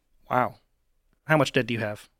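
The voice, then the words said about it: Imitates another person's voice. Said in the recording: “your Dave impression a little more ... your accent that you were just doing with the diapers ... micro impression”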